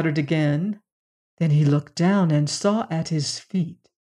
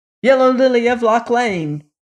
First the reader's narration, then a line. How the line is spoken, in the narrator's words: shouted the prince without looking at her